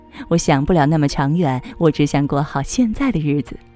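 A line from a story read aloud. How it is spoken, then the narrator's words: Giggling girl. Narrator (Chinese): 姑娘扑哧笑了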